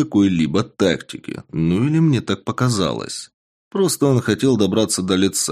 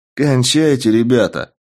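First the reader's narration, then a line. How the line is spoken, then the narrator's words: Cheerful. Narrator (Russian): весело сказал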